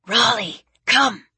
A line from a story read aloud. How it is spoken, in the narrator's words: hissed